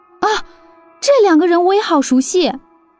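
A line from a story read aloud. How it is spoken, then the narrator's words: Sudden startled cry. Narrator (Chinese): 林阳突然惊叫道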